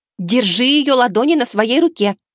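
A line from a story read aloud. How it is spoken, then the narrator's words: Yelling woman. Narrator (Russian): заорала боевая подруга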